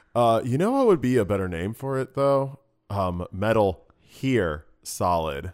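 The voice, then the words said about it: Surfer dude character voice. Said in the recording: “I don't know why Hassel's like a surfer dude. ... classic New Jersey accent”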